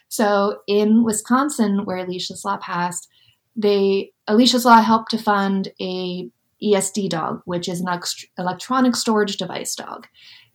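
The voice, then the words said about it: Giddy, excited voice. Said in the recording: “I get really giddy about this, you can hear it in my voice, I'm very excited”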